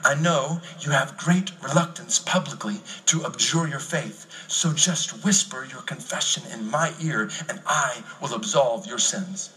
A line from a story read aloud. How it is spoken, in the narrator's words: whispered in his ear